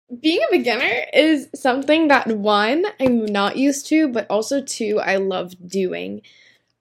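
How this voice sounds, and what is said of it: Voice affected by recent illness. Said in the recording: “I'm recovering from being sick, so please, thank you, excuse my voice.”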